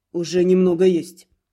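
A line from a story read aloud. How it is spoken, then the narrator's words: Calm explanation. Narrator (Russian): спокойно пояснил Рид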